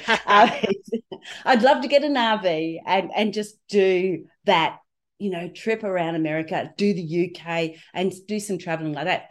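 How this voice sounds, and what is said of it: Australian accent. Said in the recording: “as you can tell, I'm from Australia with this strange accent, which I don't feel like I've got”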